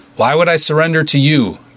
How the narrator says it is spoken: Beef called out

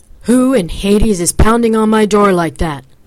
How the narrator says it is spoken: man's bellowing rage

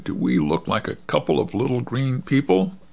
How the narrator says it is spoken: Tom chuckled

